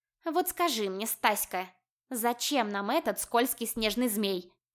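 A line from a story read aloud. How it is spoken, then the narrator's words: Snorted. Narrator (Russian): фыркнула Мурка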